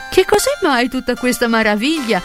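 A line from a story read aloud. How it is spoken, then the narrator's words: Laughing. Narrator (Italian): disse ridendo la buona donna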